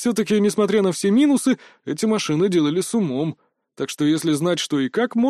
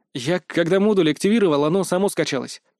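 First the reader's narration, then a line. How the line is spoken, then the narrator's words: Snort. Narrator (Russian): фыркнул я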